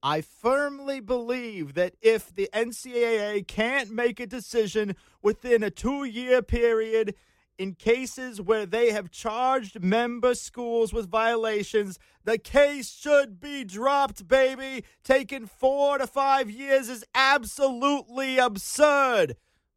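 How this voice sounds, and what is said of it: Dickie V impression. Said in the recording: “not a great Dickie V impersonation”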